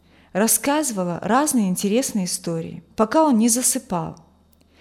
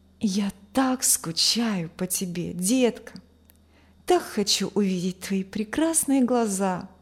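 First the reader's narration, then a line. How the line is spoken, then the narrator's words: Whispering into phone. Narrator (Russian): шептал парень в телефон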